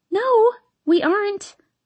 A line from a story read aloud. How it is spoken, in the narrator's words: I squeak